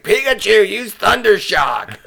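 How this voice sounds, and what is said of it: Imitates a cartoon show voice. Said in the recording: “my Pokemon catching voice ... doing an impression of that show”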